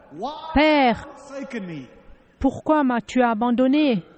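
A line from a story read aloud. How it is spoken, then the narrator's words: Loud cry. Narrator (French): Jésus s'écria d'une voix forte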